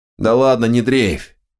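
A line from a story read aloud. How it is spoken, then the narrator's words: Grumbling. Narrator (Russian): проворчал он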